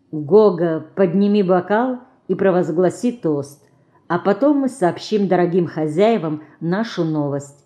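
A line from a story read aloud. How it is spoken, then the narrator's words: Soft whisper. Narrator (Russian): тихонько шепнула она сыну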